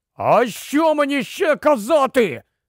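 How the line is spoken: Sudden shout. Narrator (Ukrainian): раптом крикнув Рон

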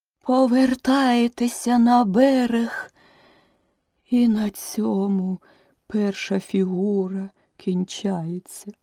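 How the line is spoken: Suddenly weakened voice, turtle. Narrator (Ukrainian): закінчила черепаха несподівано ослаблим голосом

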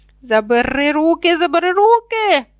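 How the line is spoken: Shrieking gnome. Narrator (Ukrainian): верещав гном

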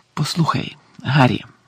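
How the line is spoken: Very quiet. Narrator (Ukrainian): сказав усе ще дуже тихо

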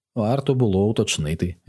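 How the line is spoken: Replied with a sigh. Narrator (Ukrainian): відказав я і зітхнув

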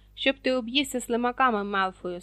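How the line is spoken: Angry. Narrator (Ukrainian): сердито обізвався Рон

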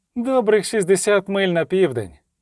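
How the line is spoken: Carefree, cheerful. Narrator (Ukrainian): оцінив Любисток досить безтурботним, навіть веселим голосом

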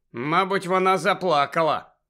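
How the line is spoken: Rueful mutter. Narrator (Ukrainian): скрушно буркнув Гаррі

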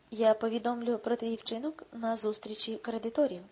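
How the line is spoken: Calm even reply. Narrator (Ukrainian): рівним, спокійним тоном відповів Рудольф

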